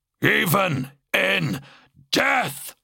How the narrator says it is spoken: the Blood Angel growled

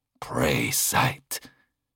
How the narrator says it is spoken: whispered a single word

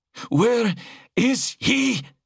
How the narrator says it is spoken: she shrieked

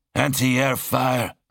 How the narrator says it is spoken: Mercutian grumbled

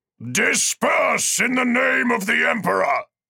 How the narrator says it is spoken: That voice was far louder and deeper, and it thundered

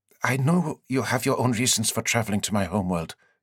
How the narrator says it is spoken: Annie said, her voice trembling a little

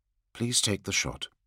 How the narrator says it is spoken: Sanguinius said softly

